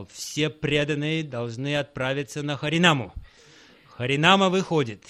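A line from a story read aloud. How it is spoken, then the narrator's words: Thunderous voice. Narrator (Russian): тем же самым громовым голосом сказал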